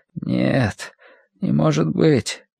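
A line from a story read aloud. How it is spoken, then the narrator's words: Frowning mutter. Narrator (Russian): нахмурившись, пробормотал он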